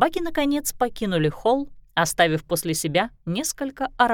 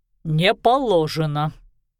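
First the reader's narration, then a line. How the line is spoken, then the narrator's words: Grumbled mutter. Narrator (Russian): буркнул Семён Никитич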